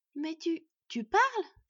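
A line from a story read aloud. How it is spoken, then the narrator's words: Stunned exclamation. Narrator (French): s'exclama Bord, sidéré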